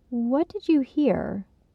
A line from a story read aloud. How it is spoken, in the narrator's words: She spoke calmly, focusing on curiosity over anger or judgment